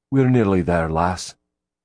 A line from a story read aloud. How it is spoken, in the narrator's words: he said comfortingly